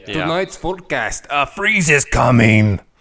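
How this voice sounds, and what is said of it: Put-on Transylvanian accent, Cookie Monster-like. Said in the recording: “It turned into Cookie Monster at the end. ... Nice general accent there. ... General Transylvanian accents.”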